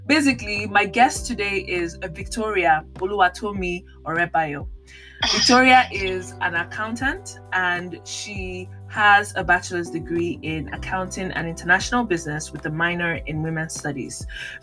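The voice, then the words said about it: Nigerian accent. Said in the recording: “Let me speak in my Nigerian accent.”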